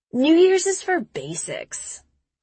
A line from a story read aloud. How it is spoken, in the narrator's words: Chris sneers